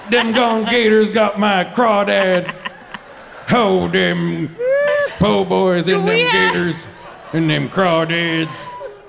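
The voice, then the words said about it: Put-on Creole accent. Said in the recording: “how's your Creole accent?”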